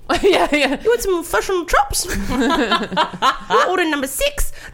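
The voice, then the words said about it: Put-on New Zealand accent. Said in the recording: “I love their accents. ... the number one most sexy accent in the world. ... their accent's not that different”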